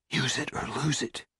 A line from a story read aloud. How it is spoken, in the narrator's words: he whispered